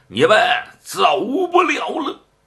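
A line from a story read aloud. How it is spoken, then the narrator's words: Booming monk's shout. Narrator (Chinese): 飞飞和尚这一喊呢，这震的这方丈室嗡嗡直响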